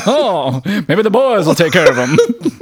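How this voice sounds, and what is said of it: Old-timey mid-Atlantic radio accent. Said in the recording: “We're like old-timey radio guys. ... You got to start talking with a mid-Atlantic accent.”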